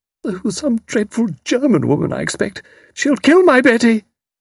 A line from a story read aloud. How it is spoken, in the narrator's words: Sprott cried out weakly